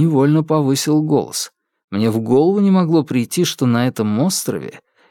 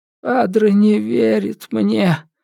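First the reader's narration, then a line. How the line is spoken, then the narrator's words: Glum whisper. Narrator (Russian): уныло прошептал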